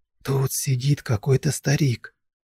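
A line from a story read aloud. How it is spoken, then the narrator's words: Whispered. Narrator (Russian): прошептал я мужику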